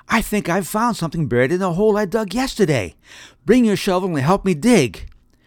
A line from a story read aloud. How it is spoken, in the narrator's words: he yelled